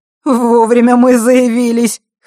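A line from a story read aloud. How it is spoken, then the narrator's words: Chuckling, good mood returning. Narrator (Russian): хохотнул Морж, которому, несмотря на подбитый левый глаз, возвращалось хорошее настроение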